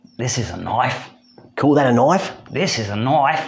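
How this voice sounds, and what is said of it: Put-on Australian accent. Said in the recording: “Paul Hogan ... Let's do the rest in Australian ... Call that an accent?”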